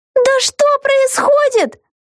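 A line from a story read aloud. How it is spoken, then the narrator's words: Shouted. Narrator (Russian): закричала Вега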